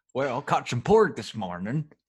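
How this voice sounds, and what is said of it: Character voice, possibly Irish-sounding. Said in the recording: “What was that voice? ... That was Cookie. ... Is he Irish?”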